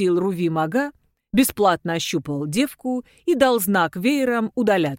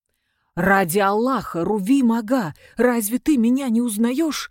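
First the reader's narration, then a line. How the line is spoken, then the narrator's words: Desperate exclamation. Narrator (Russian): воскликнул Мустафа Истома в отчаянии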